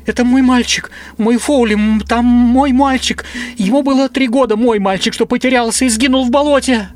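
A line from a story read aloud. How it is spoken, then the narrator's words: Convulsive sobbing. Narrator (Russian): Она начинала судорожно рыдать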